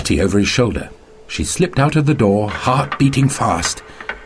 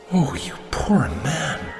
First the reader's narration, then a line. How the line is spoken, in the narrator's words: she breathed